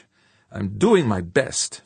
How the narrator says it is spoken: Fuchs snapped

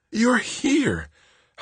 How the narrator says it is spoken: Holly gasped once they came up for air

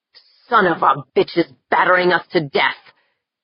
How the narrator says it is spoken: Jaeger growled in between choice curses

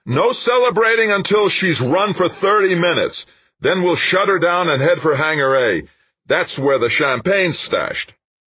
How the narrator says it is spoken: Dan shouted as loudly as he could

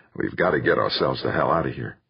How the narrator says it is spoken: muttering

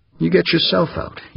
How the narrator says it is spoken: he said icily, remembering the slap she had given him

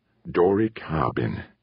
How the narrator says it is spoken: muttered, his chest heaving

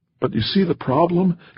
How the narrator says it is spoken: Gray Cloud said, almost pleading

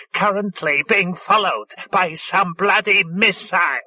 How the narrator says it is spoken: it said loudly

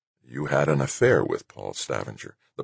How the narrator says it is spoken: the president murmured

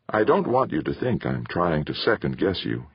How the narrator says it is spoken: he said

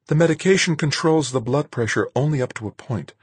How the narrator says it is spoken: Marguerite said, a little more calmly

